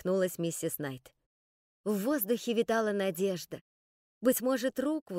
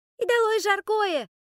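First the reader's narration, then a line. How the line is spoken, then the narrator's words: High-pitched girl's squeal. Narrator (Russian): высоким голосом взвизгнула какая-то девочка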